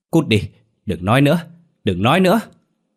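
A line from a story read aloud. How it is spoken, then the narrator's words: Screaming. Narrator (Vietnamese): Bà Năm ... hét toáng lên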